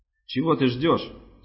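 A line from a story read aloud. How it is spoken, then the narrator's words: Plain question. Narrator (Russian): спросила она Реминта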